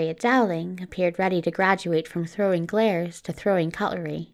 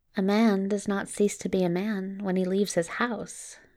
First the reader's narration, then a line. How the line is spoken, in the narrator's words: said quietly